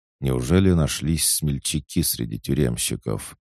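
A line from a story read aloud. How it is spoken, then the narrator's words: Tired sigh. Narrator (Russian): Артем устало вздохнул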